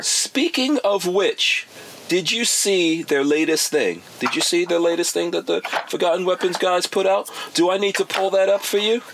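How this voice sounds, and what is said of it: Very sarcastic voice. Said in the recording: “my very sarcastic voice”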